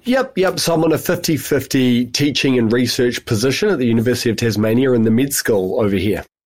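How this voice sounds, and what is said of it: New Zealand accent. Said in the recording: “you come with a bit of an accent ... I'm a New Zealander, and I've also spent 5 years in the UK”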